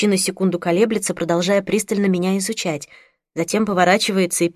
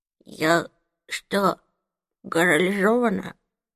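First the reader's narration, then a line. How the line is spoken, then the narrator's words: Rustling whisper. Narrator (Russian): спрашиваю я шелестящим шепотом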